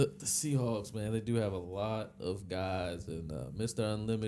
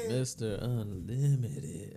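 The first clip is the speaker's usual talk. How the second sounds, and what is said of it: Put-on sexy, sultry voice. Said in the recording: “sexy voice ... that was a sexy, that's a Sierra voice”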